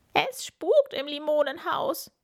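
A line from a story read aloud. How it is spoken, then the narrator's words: Shrieking. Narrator (German): kreischt Camilla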